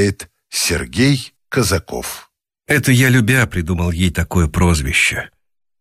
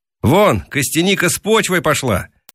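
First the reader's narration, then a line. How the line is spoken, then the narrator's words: Shouted from afar. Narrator (Russian): Наташка крикнула издали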